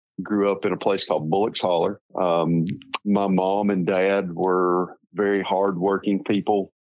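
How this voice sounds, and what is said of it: Rural Tennessee accent. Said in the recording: “a very rural little hillbilly town, as you can tell from my accent, in Northeast Tennessee”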